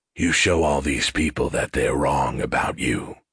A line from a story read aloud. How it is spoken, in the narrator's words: Shovel continued in a softer voice